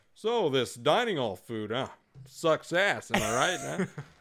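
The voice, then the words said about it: Mock sexy seductive voice. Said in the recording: “you got to bring out your sexy voice.”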